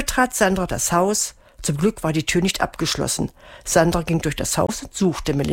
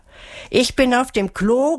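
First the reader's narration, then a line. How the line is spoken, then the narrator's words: Calling out. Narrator (German): rief Melissa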